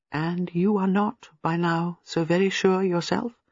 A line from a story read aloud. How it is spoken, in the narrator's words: Miss Marple said gently